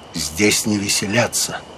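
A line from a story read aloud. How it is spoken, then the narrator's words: Quiet. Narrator (Russian): Огюст де Калинкур тихо сказал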